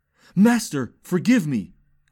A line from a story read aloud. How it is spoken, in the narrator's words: cried Gamliel Basnun